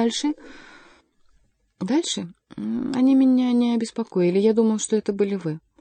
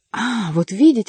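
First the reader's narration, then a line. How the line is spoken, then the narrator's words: Breathless exclamation. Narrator (Russian): воскликнул, задыхаясь граф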